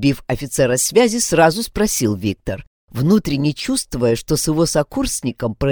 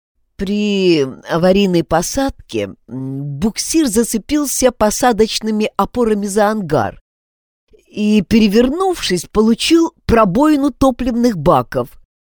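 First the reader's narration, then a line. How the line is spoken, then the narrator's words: Stammering officer. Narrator (Russian): запинаясь, продолжил офицер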